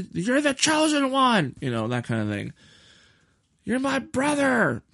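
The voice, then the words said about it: Poor, mocking angry-character impression. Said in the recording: “That was a terrible impression of an angry Obi-Wan ... it was just me mocking that scene”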